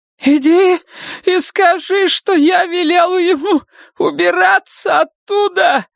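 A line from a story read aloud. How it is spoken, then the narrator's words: Shout. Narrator (Russian): закричала она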